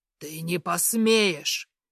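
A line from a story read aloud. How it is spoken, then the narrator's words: Angry growl. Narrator (Russian): опять рычит зло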